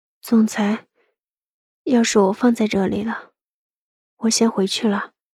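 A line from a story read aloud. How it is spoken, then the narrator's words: Soft, restrained. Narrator (Chinese): 一双贝齿紧紧咬住嘴唇，轻声说道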